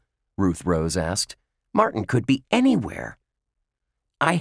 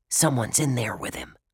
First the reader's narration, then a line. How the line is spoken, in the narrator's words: Dink whispered to Josh and Ruth Rose